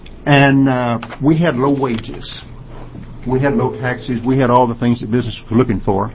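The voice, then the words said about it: Southern US accent. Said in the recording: “You may have noticed from my accent, I'm not from around here. I'm from the South originally”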